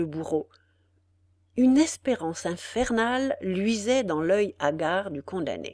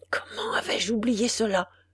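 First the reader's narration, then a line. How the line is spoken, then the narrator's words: Murmur. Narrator (French): murmura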